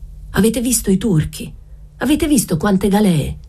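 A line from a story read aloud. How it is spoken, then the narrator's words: Shouted. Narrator (Italian): gridò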